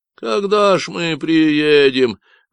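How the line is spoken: Mock childish whine. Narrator (Russian): захныкал сзади Джош, изображая маленького ребенка

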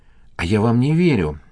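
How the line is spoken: Breathed out. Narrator (Russian): выдохнула она

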